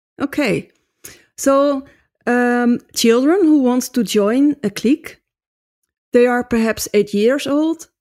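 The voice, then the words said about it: Noticeable foreign accent. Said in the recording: “Got a beautiful accent.”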